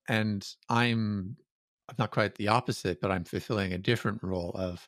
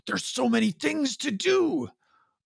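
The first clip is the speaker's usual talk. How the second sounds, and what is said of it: Imitates another person's voice. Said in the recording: “that's a good Malcolm impression”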